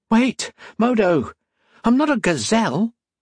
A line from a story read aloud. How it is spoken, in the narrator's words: Octavia blurted